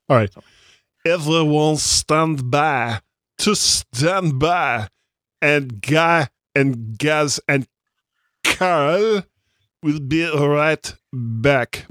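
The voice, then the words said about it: Bad put-on accent. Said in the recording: “What a horrible, horrible accent.”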